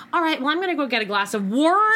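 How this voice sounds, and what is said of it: Exaggerated loud Pittsburgh accent. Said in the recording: “really leaning into it ... The accent was fine, but it didn't match. The volume always increased a bit.”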